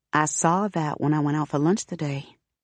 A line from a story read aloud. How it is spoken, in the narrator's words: Vanessa says softly